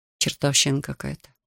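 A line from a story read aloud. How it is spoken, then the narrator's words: Mutter. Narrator (Russian): пробормотал он подбежавшему Лаймону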